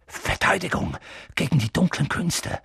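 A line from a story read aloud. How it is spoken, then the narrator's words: Reluctant murmur. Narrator (German): murmelte Professor Quirrell, als ob er lieber nicht daran denken wollte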